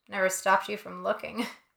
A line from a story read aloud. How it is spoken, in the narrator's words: Bryn says, and she laughs